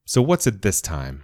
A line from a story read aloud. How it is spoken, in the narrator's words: I asked